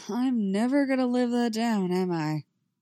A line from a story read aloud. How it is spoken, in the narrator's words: Eddie sighs, but he doesn't look like he is upset